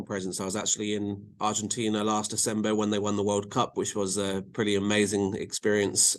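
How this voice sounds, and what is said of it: English accent. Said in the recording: “with my accent and being in England”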